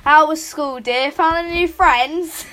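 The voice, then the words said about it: Exaggerated British mum accent. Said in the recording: “do a really British mum accent”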